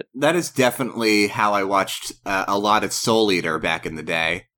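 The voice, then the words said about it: Sick, rough-sounding voice. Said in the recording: “my voice is a little messed. I am very sick right now”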